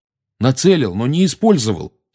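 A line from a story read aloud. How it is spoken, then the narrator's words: Angry. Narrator (Russian): сердито начал Гарри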